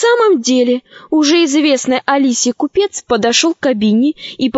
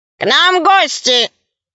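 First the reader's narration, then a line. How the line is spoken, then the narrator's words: Loud robot voice. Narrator (Russian): робот-художник громко сказал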